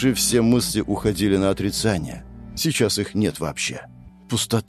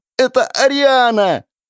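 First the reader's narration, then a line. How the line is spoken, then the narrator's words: Hysterical shouting. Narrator (Russian): В истерике кричал парень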